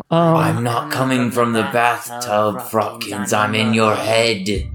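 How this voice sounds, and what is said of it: Weird character voice. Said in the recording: “There is a weird voice coming from the bathtub right now.”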